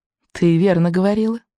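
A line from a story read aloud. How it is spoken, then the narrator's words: Purring dragon. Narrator (Russian): промурлыкала Буремуха, красивый золотой охотничий дракон Камикадзе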